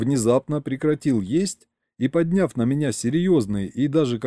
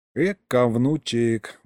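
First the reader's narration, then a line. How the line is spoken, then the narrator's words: Sighing. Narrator (Russian): вздохнул Егорыч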